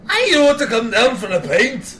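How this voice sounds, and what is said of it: Attempted Irish accent, sounding Scottish. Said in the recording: “Give me your best Irish accents... A little bit better than I expected you to do. But it's not that rough. It's like you had sex with a Scotsman”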